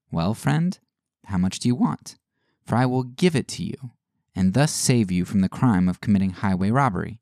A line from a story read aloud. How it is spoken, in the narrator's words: The Reverend Peace Man coolly and kindly replied